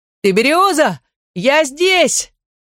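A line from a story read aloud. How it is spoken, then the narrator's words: Shouting. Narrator (Russian): Ческо закричал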